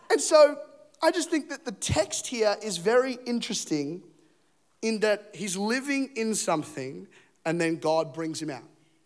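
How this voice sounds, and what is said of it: Australian accent. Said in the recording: “I sound Australian. I sound like an Australian Batman this morning... I've got the Aussie accent”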